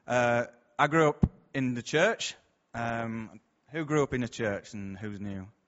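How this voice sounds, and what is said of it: Local regional accent. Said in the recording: “I'm from round here, as you can probably tell from my accent.”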